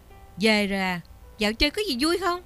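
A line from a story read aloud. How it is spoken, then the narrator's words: Loud, angry. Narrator (Vietnamese): Ba Nam mặt hầm hầm, to tiếng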